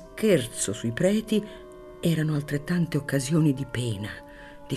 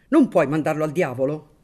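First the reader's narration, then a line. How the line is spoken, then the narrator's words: Shouted. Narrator (Italian): gridò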